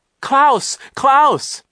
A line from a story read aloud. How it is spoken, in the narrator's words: Isadora cried